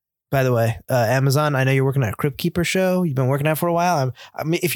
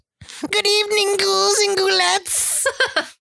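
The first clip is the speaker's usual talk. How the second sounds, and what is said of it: Creepy horror-host character voice. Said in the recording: “where I did the Crypt Creeper voice ... if you haven't found the voice of Crypt Keeper, keep me in mind”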